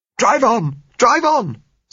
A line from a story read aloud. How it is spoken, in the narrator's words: said Gisella hysterically